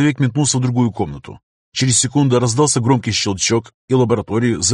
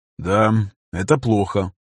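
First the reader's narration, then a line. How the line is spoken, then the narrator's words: Sighing. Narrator (Russian): Виктор вздохнул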